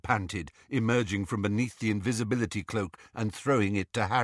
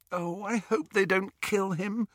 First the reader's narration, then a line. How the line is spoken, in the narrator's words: groaned Hermione